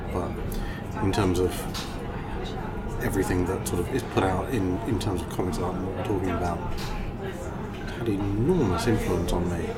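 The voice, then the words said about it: English accent. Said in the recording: “with an English accent”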